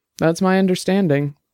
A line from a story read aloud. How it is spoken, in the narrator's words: Dex said calmly